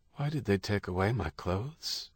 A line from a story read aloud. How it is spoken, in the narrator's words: asked, his voice distant